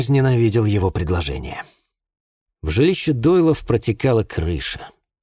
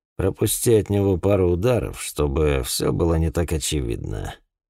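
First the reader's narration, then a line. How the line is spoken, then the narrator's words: Quiet. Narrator (Russian): Один из боксеров, Мерфи, тихо сказал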